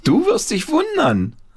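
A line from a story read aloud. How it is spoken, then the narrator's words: Called out. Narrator (German): rief Paul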